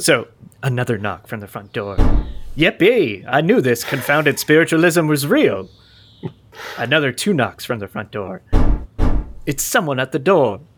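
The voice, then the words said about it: Shifting put-on English mid-Atlantic accent. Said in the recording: “my accent has already changed like six times ... Dialect number three. Yeah. You're now English ... I'm trying to do the mid-Atlantic thing ... Connecticut lockjaw”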